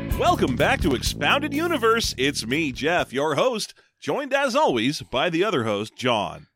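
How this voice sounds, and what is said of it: Exaggerated radio announcer voice. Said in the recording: “I'm going to talk like this the whole time. ... All you have propping you up right now is a radio voice.”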